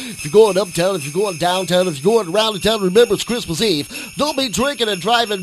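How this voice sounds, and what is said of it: 1970s FM radio DJ voice. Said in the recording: “I was flashing back to the 70s here. Doing my radio voice for all you people on the FM dial”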